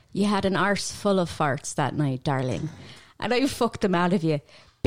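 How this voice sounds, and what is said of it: Put-on Irish accent. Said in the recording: “I'm putting on an Irish accent for this.”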